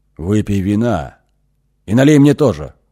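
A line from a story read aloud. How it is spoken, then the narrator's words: Hoarse. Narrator (Russian): хрипло сказал Ихша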